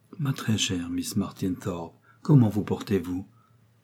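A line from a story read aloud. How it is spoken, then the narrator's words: Very tender murmur. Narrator (French): murmura Richard d'une voix plus tendre encore que de coutume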